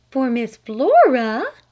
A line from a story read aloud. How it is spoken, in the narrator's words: gasped her mother